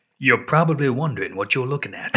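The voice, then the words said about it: Morgan Freeman impression. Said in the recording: “doing his Morgan Freeman voice ... So I'm trying to do my Morgan Freeman.”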